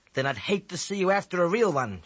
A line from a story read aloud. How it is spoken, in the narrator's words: she snapped